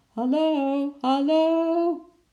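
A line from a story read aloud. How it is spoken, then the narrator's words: Father's repeated call. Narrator (Dutch): riep vader misschien wel voor de 100e keer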